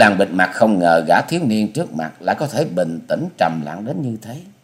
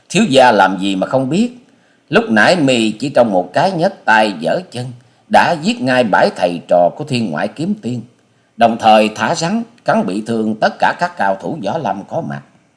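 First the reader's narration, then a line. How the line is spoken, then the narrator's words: Ringing hearty laugh. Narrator (Vietnamese): Bà Sĩ Kiệt bật cười sang sảng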